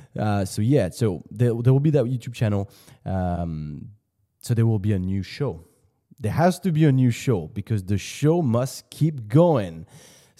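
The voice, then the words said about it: Hybrid accent with slight French traces. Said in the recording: “I don't have a very pronounced French accent. I understand on some words I do have it ... It's just a blend of all the parts I've been to. Like when I went to the US, then I went to Australia, London. I picked up a little bit of everything, and this is my hybrid accent”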